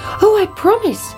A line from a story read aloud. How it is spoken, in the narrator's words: cried the princess